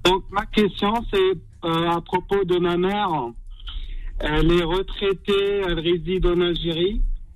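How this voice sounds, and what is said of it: Slight southern accent. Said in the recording (French): “on perçoit un petit accent du sud”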